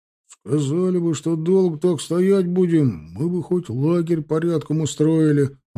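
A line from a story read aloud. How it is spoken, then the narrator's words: Grumbling group. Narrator (Russian): ворчали драгуны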